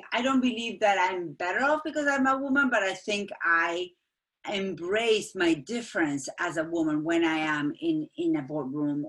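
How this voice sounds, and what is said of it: Hispanic-accented English. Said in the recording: “I stand out because of my accent, and so being Hispanic”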